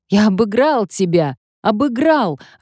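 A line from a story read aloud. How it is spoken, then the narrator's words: Joyful shouting. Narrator (Russian): радостно кричал мне Мартино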